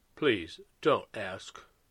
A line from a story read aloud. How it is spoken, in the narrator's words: Christopher said quietly